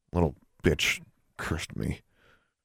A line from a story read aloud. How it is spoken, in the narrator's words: Larry muttered